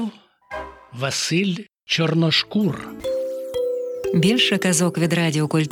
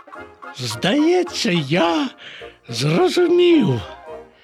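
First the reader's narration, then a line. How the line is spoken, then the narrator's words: Exclaiming. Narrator (Ukrainian): вигукнув Боня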